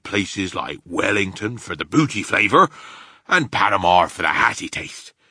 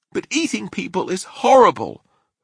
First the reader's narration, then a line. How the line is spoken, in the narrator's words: Sophie cried